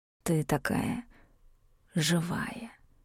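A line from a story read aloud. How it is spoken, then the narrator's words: Hoarse whisper. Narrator (Russian): хриплый шёпот лился в уши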